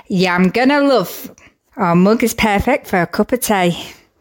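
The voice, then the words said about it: Weak attempt at Black Country accent. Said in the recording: “Not very good at a Black Country accent, am I?”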